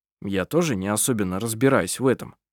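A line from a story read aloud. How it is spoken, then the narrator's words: Plain. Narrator (Russian): сказал Коль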